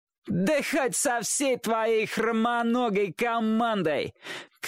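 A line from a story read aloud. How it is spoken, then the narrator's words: Shouting, group guffawing. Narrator (Russian): крикнул тот в ответ, и вся компания загоготала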